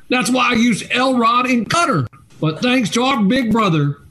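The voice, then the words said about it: Put-on country accent. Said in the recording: “I'm doing a real country accent ... Your accent's decent. You just talk funny.”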